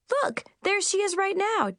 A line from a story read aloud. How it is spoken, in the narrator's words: Chip exclaimed